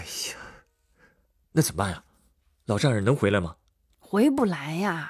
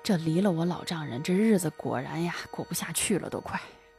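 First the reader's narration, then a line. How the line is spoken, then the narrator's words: Sighing. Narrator (Chinese): 叹了口气说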